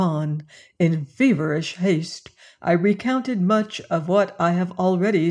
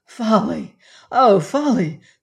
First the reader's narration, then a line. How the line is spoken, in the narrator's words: cried I